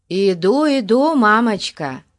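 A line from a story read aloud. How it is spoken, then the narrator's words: Shouted reply. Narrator (Russian): крикнул в ответ Фати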